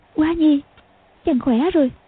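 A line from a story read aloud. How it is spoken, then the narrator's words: Trembling, amazed and joyful. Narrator (Vietnamese): Tiểu Long Nữ chợt thấy Dương Quá tim đập mạnh, vừa kinh ngạc vừa mừng rỡ, run run nói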